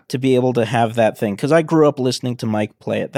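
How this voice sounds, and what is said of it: Emotional, slightly choked-up voice. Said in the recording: “I'm getting a little emotional right now”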